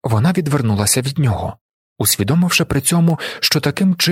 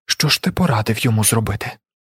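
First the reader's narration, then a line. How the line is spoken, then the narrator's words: Whisper. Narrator (Ukrainian): прошепотіла вона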